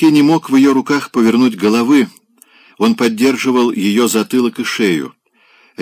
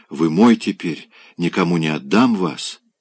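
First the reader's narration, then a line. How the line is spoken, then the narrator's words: Barely audible whisper. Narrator (Russian): прошептала чуть слышно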